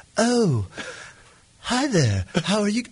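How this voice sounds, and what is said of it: Bad fake British accent. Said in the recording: “the fakest British accent that you have ever heard in your life ... the worst British accent I have ever heard”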